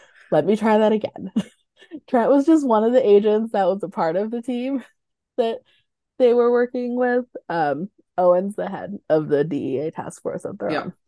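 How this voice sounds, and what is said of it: Sick-sounding voice. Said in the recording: “I'm gonna blame it on me being sick, as you can probably tell from my voice”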